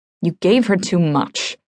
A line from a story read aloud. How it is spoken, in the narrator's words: the official grumbles